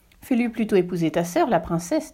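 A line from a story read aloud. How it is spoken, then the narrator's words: Plain, empress. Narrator (French): dit l'impératrice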